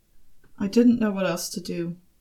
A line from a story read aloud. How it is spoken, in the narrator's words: Arthur said, more quietly this time